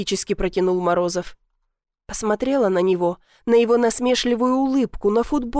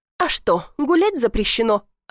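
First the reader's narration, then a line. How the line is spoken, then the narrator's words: Snapped back. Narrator (Russian): огрызнулась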